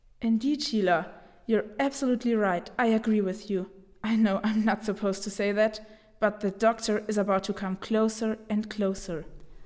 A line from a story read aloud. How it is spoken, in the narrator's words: Suddenly Stinky whispered